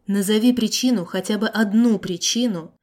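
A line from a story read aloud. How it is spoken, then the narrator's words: Very calm, even voice. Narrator (Russian): Очень спокойным и ровным голосом попросил он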